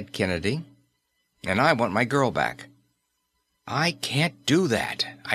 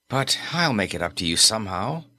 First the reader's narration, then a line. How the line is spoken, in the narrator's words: Kennedy sighed